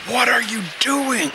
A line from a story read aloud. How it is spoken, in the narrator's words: Amina shouts over the terrible sound of the wind